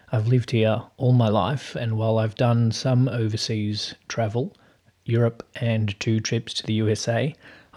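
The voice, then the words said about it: Australian accent. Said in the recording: “I'm based in Melbourne, Australia, if you didn't work that out from the accent.”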